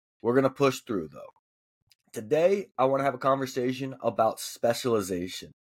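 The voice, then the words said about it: Hoarse, partly lost voice. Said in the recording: “I'm a little bit under the weather, so my voice is a little bit gone”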